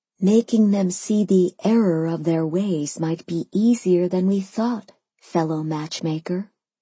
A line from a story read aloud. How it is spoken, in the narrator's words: I whispered to Simon